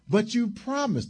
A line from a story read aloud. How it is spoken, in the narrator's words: the young wife cried